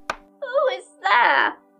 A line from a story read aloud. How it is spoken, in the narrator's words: cried Grandmother